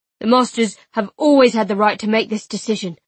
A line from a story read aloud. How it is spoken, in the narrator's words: Master Dalla argued hotly